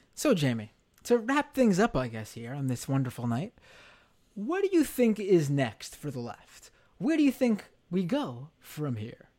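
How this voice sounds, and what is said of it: Radio announcer voice. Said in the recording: “That's my radio voice”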